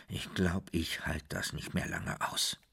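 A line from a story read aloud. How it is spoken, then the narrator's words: Father murmuring. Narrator (German): sagte der Vater, wobei er murmelte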